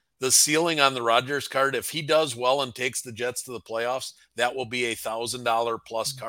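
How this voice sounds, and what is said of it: Strong Wisconsin accent. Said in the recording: “Your Wisconsin accent's coming out hard, brother.”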